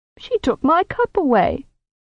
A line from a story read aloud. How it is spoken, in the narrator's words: the master of Iria said to the stranger, whining like a puppy